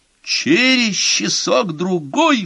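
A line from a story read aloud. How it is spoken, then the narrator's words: Roar. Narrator (Russian): взревел Гомер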